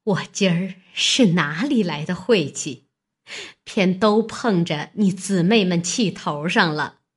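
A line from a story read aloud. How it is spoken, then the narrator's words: Hasty, laughing. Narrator (Chinese): 尤氏忙笑道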